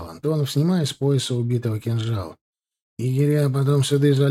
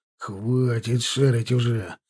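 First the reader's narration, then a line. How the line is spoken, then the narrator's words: Angry snap. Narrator (Russian): зло бросил Герасим Учанов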